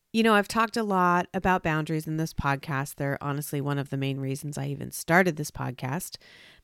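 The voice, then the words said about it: Congested, stuffed-up voice. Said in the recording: “I sound a little stuffed up this week. I've been fighting off a cold”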